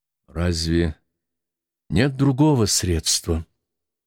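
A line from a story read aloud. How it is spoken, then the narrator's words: Sad question. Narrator (Russian): спросил я грустно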